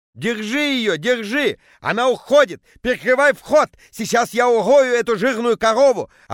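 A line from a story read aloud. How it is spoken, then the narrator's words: Yelling. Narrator (Russian): орал Петя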